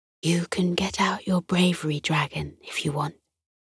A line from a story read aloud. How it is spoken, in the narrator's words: Miss Fudge whispered to Isla across the classroom